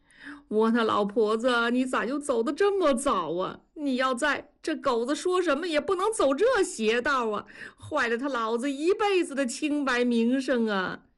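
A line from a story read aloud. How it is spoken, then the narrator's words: Wailing lament. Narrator (Chinese): 大庄拍着大腿哭诉起来说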